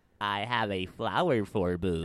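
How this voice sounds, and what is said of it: Near spot-on Funzo toy impression. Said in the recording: “your impression of Funzo ... That's like almost spot on.”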